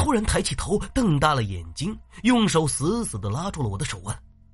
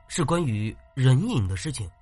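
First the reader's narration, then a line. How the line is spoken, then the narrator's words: Soft question. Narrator (Chinese): 我又轻声的问道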